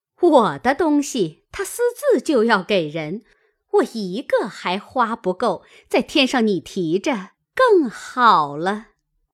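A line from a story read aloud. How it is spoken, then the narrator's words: Laughing. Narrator (Chinese): 凤姐儿笑道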